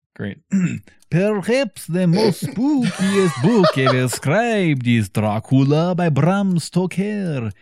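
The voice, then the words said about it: Put-on Transylvanian accent. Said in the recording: “do full Transylvanian accent”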